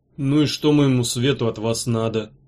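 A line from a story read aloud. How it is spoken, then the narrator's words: Tired question. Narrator (Russian): Устало спросил он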